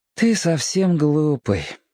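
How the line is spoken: Tired child. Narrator (Russian): устало проговорил мальчик

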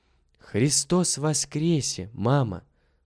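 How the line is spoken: Whisper. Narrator (Russian): прошептал Митя

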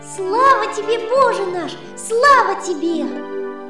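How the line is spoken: Joyful repetition. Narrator (Russian): повторяет целый день радостно

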